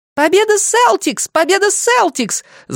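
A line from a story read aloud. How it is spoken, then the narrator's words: Yelling. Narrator (Russian): завопила Айрис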